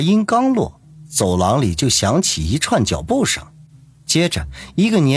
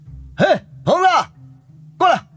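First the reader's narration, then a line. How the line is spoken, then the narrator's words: Shouted. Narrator (Chinese): 朝着走廊里喊了一声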